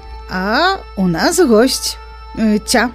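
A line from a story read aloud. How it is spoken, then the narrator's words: Smiling, mysterious. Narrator (Belarusian): яна усміхнулася і загадкава прамовіла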